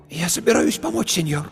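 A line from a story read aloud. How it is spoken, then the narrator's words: Hoarse with excitement. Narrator (Russian): Ее голос стал хриплым от волнения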